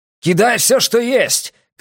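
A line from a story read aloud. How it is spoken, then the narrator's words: Shouted. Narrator (Russian): крикнул Бреккер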